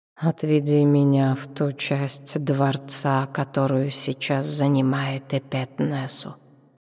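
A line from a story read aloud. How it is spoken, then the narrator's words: Quiet command, strange voice. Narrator (Russian): тихо велела Шепсет не своим голосом, смутно знакомым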